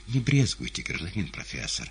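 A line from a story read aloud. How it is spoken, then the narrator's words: Whispering. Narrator (Russian): прошептал буфетчик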